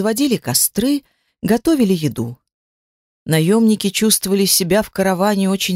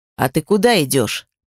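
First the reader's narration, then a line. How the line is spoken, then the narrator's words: Deep bass voice. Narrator (Russian): пробасил он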